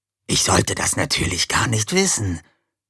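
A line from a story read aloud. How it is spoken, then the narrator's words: Hissed. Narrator (German): zischte Bataille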